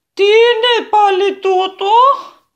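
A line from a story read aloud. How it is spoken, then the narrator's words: Shouted by old woman. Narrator (Greek): φώναξε μια ηλικιωμένη κυρία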